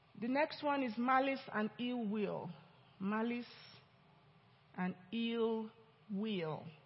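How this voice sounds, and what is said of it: Speaks with a noticeable accent. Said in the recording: “You have to just listen my accent. I'm your pastor now. You get used to it.”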